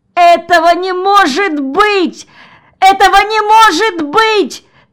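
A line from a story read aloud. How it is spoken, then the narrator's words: Screaming, then howling. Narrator (Russian): закричал Джон и взвыл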